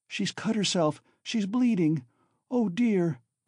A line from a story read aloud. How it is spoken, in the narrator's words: cried Sonia